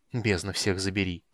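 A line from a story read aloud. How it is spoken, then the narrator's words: Muttering. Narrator (Russian): пробормотал он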